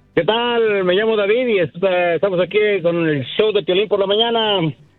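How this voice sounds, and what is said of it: Radio announcer voice. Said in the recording (Spanish): “tiene voz de locutor”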